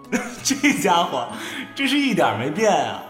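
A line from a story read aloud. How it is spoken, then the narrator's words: Amused inner voice. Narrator (Chinese): 南萧忍不住在脑内笑道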